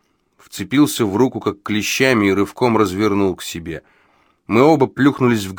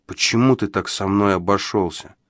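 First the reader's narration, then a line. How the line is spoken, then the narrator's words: Plain. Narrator (Russian): спросил я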